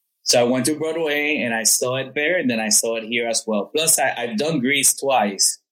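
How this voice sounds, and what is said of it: Spanish-accented English. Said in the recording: “for my Spanish workshop. One as an English actor, which was, as you could see with my accent, I didn't have a main role ... your English is not bad ... it sounds really good”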